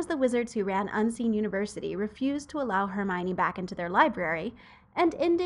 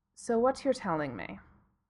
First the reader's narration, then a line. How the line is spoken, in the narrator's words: Severus said flatly